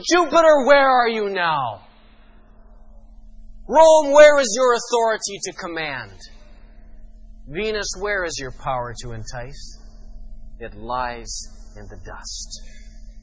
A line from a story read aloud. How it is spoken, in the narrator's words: I felt like shouting